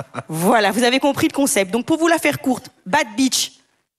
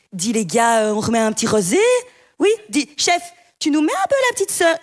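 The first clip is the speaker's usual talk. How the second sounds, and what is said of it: Put-on regional accent. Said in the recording (French): “avec l'accent”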